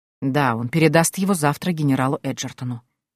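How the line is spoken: Quiet reply. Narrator (Russian): тихо ответил

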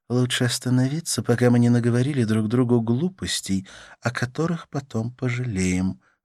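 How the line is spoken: Sighing. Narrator (Russian): вздохнула она

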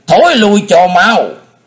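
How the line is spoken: Old man shouting. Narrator (Vietnamese): lão nhân thét lên

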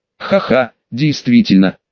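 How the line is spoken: Laughing. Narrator (Russian): рассмеялся я

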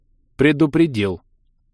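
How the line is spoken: Cold interruption. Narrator (Russian): Холодно прервала Делия

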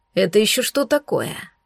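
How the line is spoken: Cold question. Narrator (Russian): Холодно прозвучал закономерный вопрос

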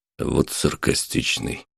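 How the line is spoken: Bodyguard muttering. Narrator (Russian): пробормотал телохранитель

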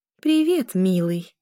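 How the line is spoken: Affectionate tone. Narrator (Russian): произнесла она ласковым тоном

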